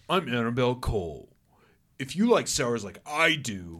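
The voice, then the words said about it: Imitates another person's voice. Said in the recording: “I better do her voice.”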